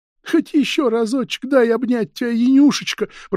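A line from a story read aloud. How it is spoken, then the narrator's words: Moaning plea. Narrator (Russian): простонала Арина Власьевна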